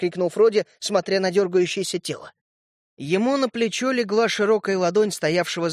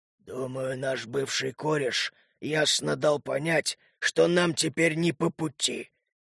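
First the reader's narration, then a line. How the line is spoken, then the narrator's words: Growl in altered voice. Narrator (Russian): измененным голосом прорычал Лютый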